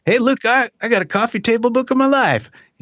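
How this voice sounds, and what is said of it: Exaggerated bad Southern accent. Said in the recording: “a horrible Southern accent”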